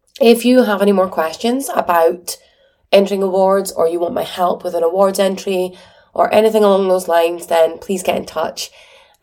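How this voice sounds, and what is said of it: Croaky, hoarse voice. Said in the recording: “my voice is still croaky”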